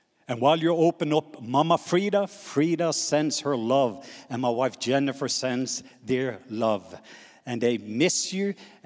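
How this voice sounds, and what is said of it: Norwegian accent in English. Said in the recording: “I'm going to try to slow down so that you can pick up my Norwegian accent.”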